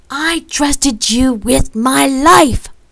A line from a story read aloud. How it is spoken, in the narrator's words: I shouted